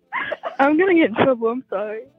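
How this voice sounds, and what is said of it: Embarrassed voice. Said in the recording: “hear the embarrassment in her voice”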